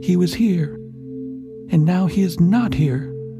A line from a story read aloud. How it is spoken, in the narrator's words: cried she